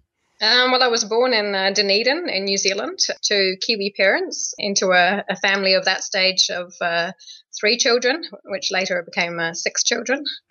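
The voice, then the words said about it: Interesting, hard-to-place foreign accent. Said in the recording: “you'll hear in her voice that she's got kind of an interesting accent”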